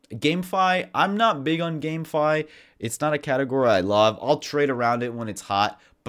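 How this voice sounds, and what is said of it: Hoarse, sick-sounding voice. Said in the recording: “My voice is kind of going, sorry, I'm still a little sick. I have had a cough all week”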